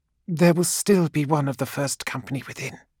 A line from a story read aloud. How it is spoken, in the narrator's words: hissed Sota Nul